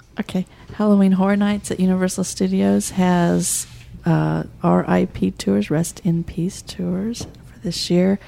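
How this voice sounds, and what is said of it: Whispering. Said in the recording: “Is there a reason you're whispering? ... I am.”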